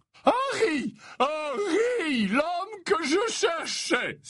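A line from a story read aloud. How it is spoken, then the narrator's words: Cordial exclamation. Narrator (French): s'exclama-t-il avec cordialité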